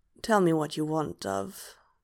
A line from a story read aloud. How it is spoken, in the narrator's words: Hob murmurs